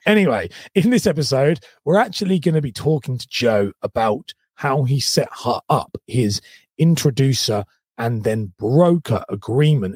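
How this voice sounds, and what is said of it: Sore, strained throat. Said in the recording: “I've got a bit of a sore throat, so I can't put all my energy into that”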